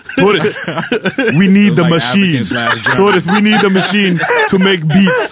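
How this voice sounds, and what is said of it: Put-on African accent. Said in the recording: “I'm bad at accents ... My African is more like this.”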